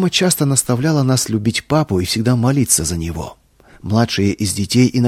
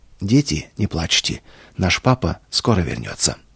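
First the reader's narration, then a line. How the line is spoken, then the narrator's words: Suddenly calm voice. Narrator (Russian): вдруг спокойным голосом сказала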